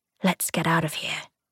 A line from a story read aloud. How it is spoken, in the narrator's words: he whispered back